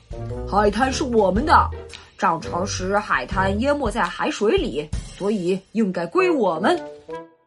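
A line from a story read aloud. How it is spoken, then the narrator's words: Roaring monster. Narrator (Chinese): 海怪的首领咆哮道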